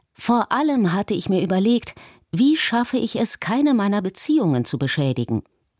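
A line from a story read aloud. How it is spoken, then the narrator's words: Plain. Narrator (German): sagte er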